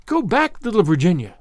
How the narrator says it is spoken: they cried

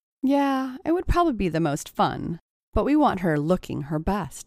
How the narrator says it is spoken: agreed Stacy

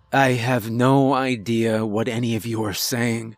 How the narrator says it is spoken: sighed

